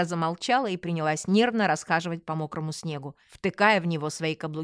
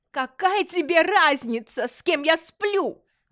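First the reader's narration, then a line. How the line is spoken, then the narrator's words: Yelling. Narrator (Russian): заорала она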